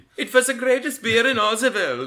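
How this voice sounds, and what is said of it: Exaggerated bad German accent. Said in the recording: “my horrible... German accent... It's not an actual German accent. It's a adaptation from a movie with a terrible German accent.”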